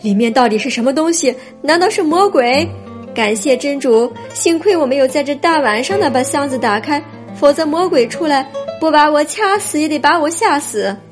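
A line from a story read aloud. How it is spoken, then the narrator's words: Frightened shout. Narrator (Chinese): 他吓得，嚷道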